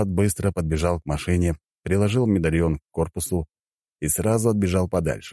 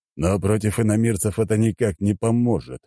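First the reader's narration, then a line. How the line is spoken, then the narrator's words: Thoughtful old man. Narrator (Russian): задумчиво проговорил старик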